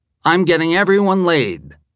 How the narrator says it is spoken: exclaimed

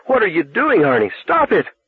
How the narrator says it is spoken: It was like being stabbed with knives, and screamed

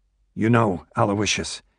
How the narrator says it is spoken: said quietly

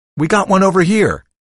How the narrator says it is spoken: I heard Louis yell from the far end of the line

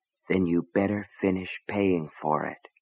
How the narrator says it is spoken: a voice deep in his mind whispered

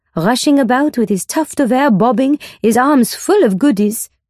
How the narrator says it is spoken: laughs Georgette to Alice, rather unkindly

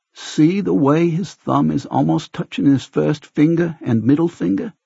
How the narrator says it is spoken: Doc asks us

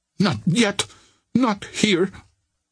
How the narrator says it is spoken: cried the girl, clutching at a straw

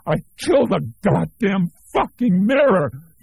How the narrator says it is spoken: he shrieked

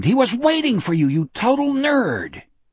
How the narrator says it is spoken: Richard cried out

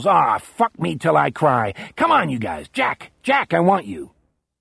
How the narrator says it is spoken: Dale snarls

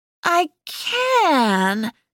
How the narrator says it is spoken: Sophia slurred

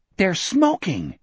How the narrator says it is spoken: Richard cried angrily

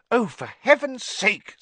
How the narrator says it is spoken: said Hermione angrily

